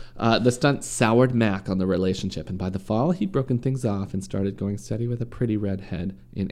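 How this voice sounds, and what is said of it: Usual voice. Nothing is said of it.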